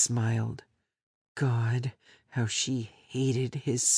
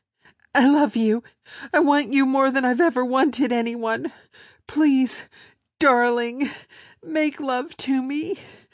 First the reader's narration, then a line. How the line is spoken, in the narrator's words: she gasped, then cried out hurriedly